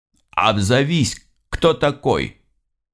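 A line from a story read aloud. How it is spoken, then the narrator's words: Shouted into the darkness. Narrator (Russian): выкрикнул я в темноту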